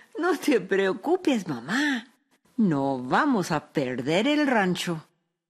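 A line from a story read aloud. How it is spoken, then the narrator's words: Young woman laughing. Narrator (Spanish): su hija Araceli, que era una joven lista y muy viva, se rió y dijo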